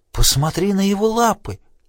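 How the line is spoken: Exclaiming. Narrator (Russian): воскликнул Селен

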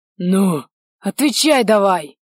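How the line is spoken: Harsh bark. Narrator (Russian): рявкнул бессмертный

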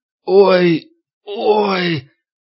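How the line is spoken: Old man's groan. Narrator (Russian): Пожилой мужчина застонал

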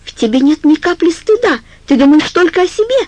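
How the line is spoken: Shouting woman. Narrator (Russian): закричала Карла

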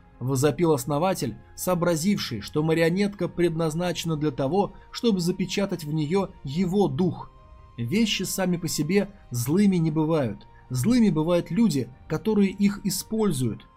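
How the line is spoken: Plain. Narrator (Russian): ответил Нели

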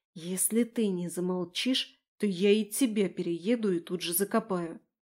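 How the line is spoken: Whisper. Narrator (Russian): прошептала

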